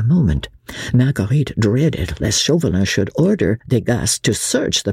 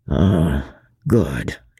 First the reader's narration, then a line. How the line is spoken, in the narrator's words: muttered Chauvelin